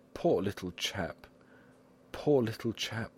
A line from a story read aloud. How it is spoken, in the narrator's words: Liébard sighed